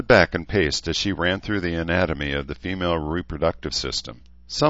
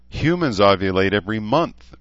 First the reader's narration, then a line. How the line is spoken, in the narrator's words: Dene wailed